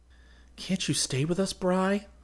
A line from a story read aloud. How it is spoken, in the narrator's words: I asked pleadingly